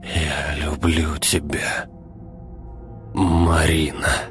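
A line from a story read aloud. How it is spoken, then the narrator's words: Strained, forced out. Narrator (Russian): Выдавил Игорь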